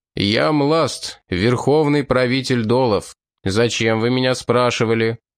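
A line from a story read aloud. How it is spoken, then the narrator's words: Booming voice. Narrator (Russian): он зычным голосом сказал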